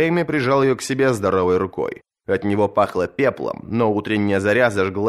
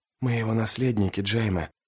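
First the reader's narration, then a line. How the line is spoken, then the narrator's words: Whispered. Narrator (Russian): прошептала Серсея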